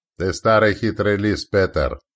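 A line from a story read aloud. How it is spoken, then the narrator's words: Mocking, from afar. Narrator (Russian): донеслось насмешливо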